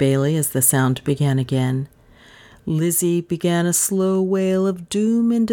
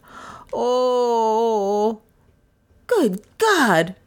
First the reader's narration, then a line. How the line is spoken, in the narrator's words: cried Beresford abruptly